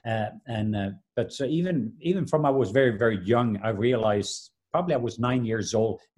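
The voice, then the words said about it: Norwegian accent. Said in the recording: “I'm from the country of Norway, so that's why people can hear that I have an accent.”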